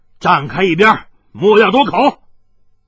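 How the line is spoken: Angry. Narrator (Chinese): 海大少怒道

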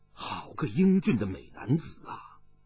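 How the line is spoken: Sighing private thought. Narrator (Chinese): 武振雄暗叹了一声，忖道

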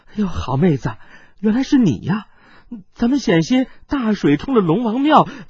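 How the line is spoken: Breathless. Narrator (Chinese): 孙小娇娇喘着说道

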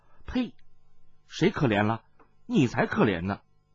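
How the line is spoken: Laughing girl. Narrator (Chinese): 杏衣少女笑退道

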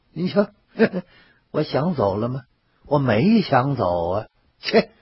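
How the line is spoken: Chuckling. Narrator (Chinese): 魏爷 呵呵一笑

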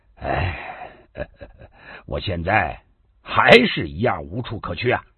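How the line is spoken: Slow, bleak, laughing. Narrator (Chinese): 高丽笑得更凄凉，他缓缓的说

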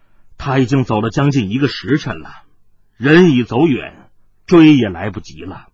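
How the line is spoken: Long sigh. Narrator (Chinese): 长叹道

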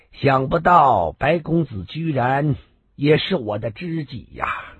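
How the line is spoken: Smiling. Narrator (Chinese): 朱大少 微笑的说道

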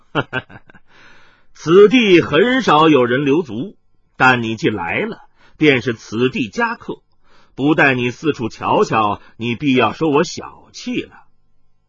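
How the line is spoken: Laughing. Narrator (Chinese): 麻衣客笑道

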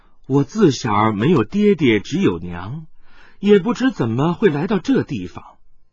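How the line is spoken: Sad girl singing softly. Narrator (Chinese): 那少女悲哀的轻叹了一声，轻轻的唱道

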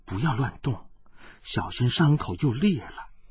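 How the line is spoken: Soft, gentle. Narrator (Chinese): 温黛黛柔声道

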